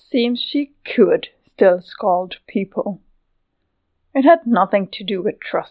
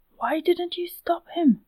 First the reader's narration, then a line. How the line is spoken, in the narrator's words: She whispered towards Milia